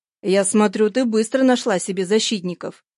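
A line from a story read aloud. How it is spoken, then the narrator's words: Angry. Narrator (Russian): Зло продолжал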